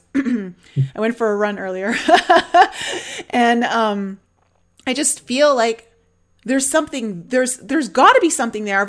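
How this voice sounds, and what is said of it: Strained, fading hoarse voice. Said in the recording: “I'm just kind of losing my voice”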